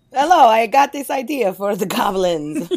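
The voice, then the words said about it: Bad put-on Italian accent. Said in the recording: “I'm not going to do any more terrible Italian accent.”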